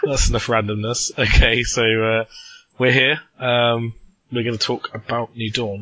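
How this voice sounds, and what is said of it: Sick-sounding voice. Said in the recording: “You could probably tell from my voice, I've still got the remnants of a cold.”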